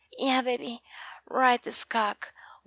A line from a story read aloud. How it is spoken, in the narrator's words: Warren told me with a moan